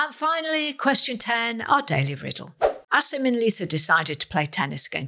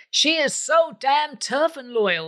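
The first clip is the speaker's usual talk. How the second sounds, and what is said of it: Poor put-on American accent. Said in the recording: “That's my worst American accent”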